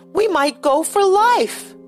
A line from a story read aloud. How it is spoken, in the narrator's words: Joey's voice, rising to his shrill tones, cried